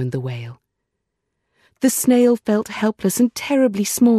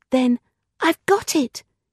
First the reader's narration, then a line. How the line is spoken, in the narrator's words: cried